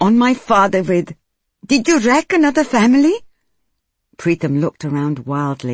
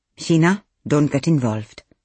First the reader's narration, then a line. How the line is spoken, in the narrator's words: Manjeet said quietly